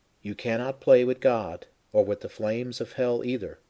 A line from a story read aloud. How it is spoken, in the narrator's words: the Lord said